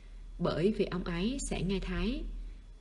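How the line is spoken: Soft. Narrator (Vietnamese): Văn Thời khẽ nói

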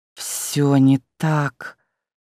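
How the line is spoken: Frightened, angry hiss. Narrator (Russian): Испуганное зло прошипело Яда

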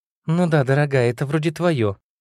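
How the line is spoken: Uncertain, mother. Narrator (Russian): неуверенно произнесла мать

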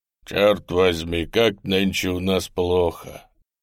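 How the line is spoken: Young officer's bass voice. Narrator (Russian): говорит басом белобрысенький безусый морской офицерик

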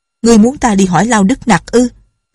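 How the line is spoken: Loud. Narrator (Vietnamese): Nhạc Linh Sang lớn tiếng nói

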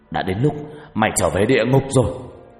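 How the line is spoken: Angry loud shout. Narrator (Vietnamese): giận dữ quát lớn

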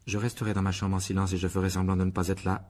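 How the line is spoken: Monotone reply. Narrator (French): répondit Harry d'une voix monocorde

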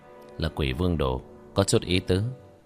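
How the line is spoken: Amused, faint smile. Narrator (Vietnamese): Hắn khẽ mỉm cười

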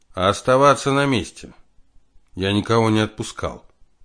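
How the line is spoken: Stern. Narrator (Russian): Алексей строго произнес

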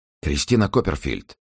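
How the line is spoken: Whisper in silence. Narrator (Russian): прошептал он в тишине темной комнаты

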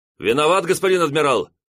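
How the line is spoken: Young officer shouting. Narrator (Russian): выкрикнул кто-то из крейсерских мичманов

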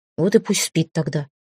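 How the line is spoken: Werewolf grumbling. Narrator (Russian): пробурчал оборотень

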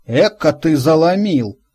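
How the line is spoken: Snort. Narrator (Russian): хмыкнул Игорек

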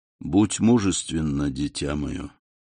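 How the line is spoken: Gentle yet commanding. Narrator (Russian): Монте-Кристо сказал ласково, но все же с повелительной ноткой в голосе

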